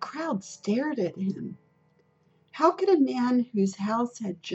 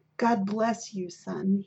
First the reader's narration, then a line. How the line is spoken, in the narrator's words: he said